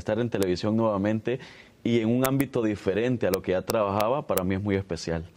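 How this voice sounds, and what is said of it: Announcer-like broadcast voice. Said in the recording (Spanish): “voz de locutor”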